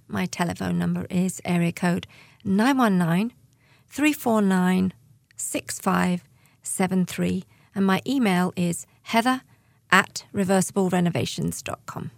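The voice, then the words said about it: British accent. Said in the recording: “Do I detect a British accent”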